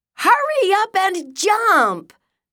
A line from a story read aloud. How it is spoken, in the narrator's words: Millie shouted